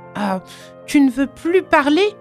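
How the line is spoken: Exclaimed. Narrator (French): s'écrie-t-elle

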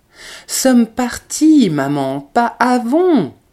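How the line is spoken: Impatient, disdainful exclamation. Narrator (French): s'écria le collégien avec une impatience dédaigneuse et presque dure

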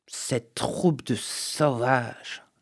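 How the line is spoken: Growl. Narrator (French): grogna McLaughlin

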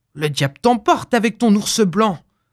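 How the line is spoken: Miser grumbling. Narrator (French): grommela l'avare

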